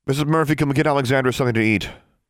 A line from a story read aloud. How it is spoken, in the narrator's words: She called in a louder voice